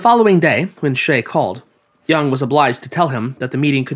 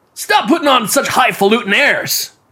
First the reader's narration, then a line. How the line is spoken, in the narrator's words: he shouted